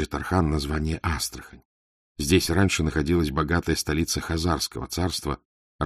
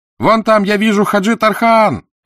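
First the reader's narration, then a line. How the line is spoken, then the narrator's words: Child shouting from afar. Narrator (Russian): кричал с мачты негритенок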